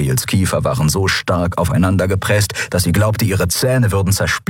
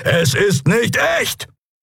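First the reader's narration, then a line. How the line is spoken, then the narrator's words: Called out. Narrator (German): rief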